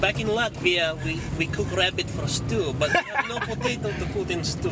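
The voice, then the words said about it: Put-on foreign accent. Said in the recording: “what happened to that accent of yours, man?”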